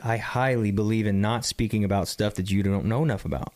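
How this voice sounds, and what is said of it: Hoarse, strained voice. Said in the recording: “I'm losing my voice because there's something in my throat”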